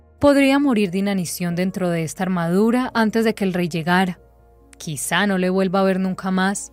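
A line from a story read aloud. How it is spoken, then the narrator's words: Sigh. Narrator (Spanish): suspiró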